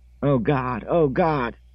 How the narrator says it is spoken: he was screaming

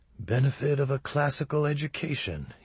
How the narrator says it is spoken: he would murmur with a certain sarcasm

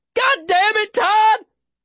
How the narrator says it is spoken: Davy yells

